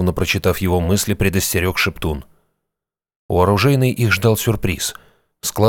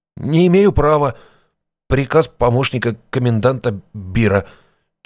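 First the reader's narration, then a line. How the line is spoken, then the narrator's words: Slightly stammering report. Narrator (Russian): чуть заикаясь, отрапортовал стражник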